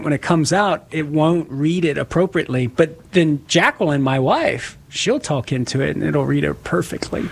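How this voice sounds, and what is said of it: Southern Louisiana accent. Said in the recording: “it can't recognize my accent sometimes... from Southern Louisiana... with my accent”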